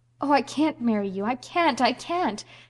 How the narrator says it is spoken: she cried wildly

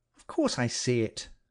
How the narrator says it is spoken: I said sharply

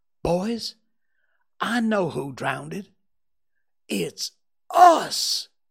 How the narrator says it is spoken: a revealing thought flashed through Tom's mind, and he exclaimed

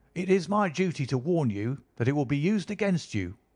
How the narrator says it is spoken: cried the inspector, with the magnificent fair play of the British criminal law

